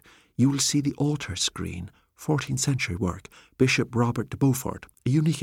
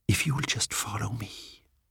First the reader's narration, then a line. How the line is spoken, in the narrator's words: he whispered